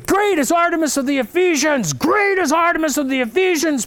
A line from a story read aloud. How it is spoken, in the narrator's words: they began to scream